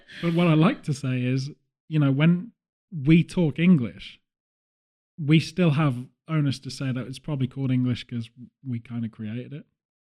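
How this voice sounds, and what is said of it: British English accent. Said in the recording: “Your nationality is defined by your accent. And I'm representing the UK”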